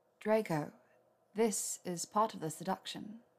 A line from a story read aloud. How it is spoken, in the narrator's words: she said in a low purr